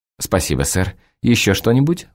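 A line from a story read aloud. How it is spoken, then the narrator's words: Breathless, flustered exclamation. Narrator (Russian): взволнованно восклицает запыхавшаяся от смущения официантка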